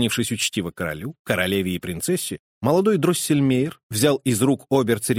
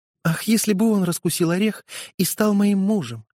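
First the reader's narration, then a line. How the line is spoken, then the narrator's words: Sighing. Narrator (Russian): сказала, вздохнув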